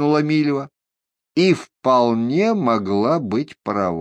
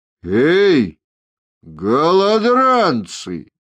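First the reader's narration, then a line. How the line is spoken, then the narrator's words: Knight's ringing growl. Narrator (Russian): звонко рыкнул один из рыцарей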